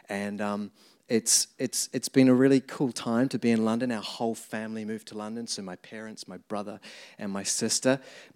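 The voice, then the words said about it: New Zealand accent. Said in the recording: “As you can tell, the accent, I grew up in New Zealand”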